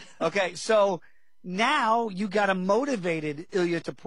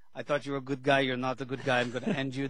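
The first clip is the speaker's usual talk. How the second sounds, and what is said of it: Bad Spanish accent sounding Russian. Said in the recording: “my bad Spanish, sounds Russian impression”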